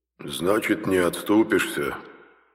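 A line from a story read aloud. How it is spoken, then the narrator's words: Sad deep bass. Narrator (Russian): печально пробасил клад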